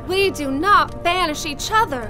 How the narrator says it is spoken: I cried out

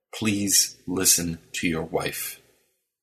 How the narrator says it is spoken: said Carl quietly

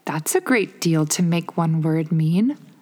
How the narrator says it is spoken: Alice said in a thoughtful tone

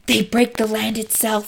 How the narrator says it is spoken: he hissed, eyes wide

